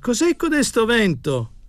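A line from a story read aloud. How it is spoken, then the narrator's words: Shouted. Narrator (Italian): gridava Tommasini al cameriere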